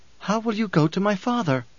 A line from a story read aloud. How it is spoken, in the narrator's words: pleaded